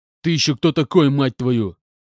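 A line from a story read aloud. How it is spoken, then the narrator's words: Man growling. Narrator (Russian): Зарычал мужик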